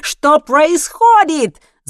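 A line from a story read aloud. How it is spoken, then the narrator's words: Shouting. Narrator (Russian): закричал он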